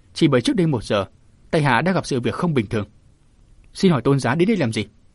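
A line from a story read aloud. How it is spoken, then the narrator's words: Scoffing. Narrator (Vietnamese): Diêu Kiệt cười khẩy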